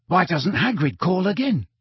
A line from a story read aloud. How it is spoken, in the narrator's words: he whispered